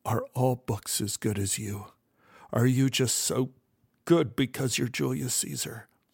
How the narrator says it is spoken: Before I fell asleep, I whispered

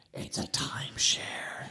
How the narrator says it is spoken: I whisper in Tanser's ear

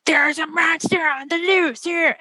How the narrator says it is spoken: he's yelling

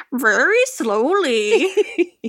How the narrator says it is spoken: making believe he was Harold, would answer in a crazy voice

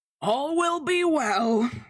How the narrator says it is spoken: cries the burgomaster

